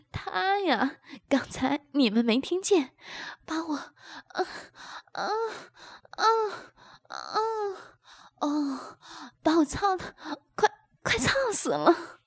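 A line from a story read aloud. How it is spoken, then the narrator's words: Breathless laughing. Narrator (Chinese): 阿芳边气喘吁吁边笑道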